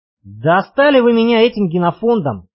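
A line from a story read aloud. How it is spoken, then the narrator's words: Sighing. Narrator (Russian): вздохнул Крылов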